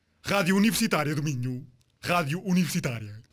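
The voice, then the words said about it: Woman putting on a man's voice. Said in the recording (Portuguese): “Posso fazer voz de homem?”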